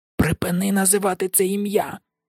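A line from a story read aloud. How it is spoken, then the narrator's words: Hiss. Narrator (Ukrainian): зашипів Рон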